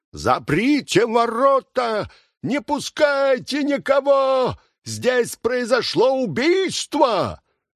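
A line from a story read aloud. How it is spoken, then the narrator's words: Loud alarmed shout. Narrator (Russian): он вообразил, что тот убит, и потому громко крикнул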